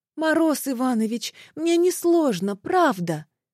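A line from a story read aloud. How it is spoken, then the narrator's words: Pleading. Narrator (Russian): взмолилась Марфа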